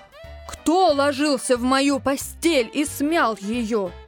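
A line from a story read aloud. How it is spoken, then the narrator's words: Deep bass roar. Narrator (Russian): Заревел медведь-папа басом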